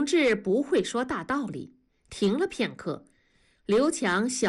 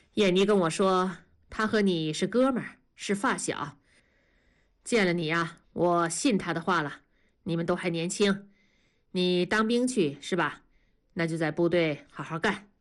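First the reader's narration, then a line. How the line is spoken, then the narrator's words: Calm, pitying. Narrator (Chinese): 同志似乎心生怜悯了，声音变得平静说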